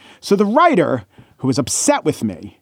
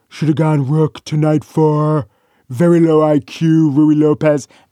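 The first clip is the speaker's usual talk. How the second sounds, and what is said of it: Bad Donald Trump impression. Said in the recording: “my bad Trump impression”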